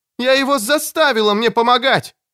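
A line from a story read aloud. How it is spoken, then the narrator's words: Shouting. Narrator (Russian): крикнула Кэтрин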